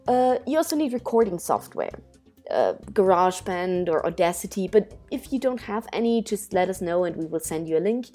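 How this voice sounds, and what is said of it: Non-native English accent. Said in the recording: “What if English is not my first language? It isn't mine either. ... nobody can hear my accent, right? I'm blending in. No. ... I do have one”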